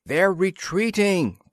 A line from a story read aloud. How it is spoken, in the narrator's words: Planter yelled